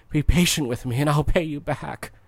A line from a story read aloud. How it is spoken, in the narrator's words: His fellow servant fell to his knees and begged him